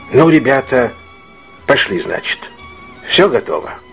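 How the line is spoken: Said quietly. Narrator (Russian): негромко сказал

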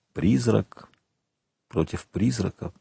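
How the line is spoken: Whisper. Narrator (Russian): прошептал

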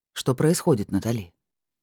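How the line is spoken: Calmer questioning tone. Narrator (Russian): более спокойным тоном спросил Майкл

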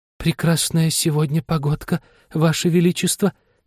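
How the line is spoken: Quiet, weak voice. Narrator (Russian): заговорила герцогиня тихим, слабым голосом

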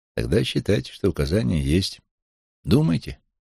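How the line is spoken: Plain. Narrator (Russian): сказал я ему

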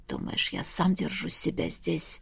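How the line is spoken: Hesitant whisper. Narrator (Russian): шепнул наконец

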